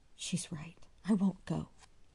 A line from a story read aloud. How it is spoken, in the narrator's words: he murmured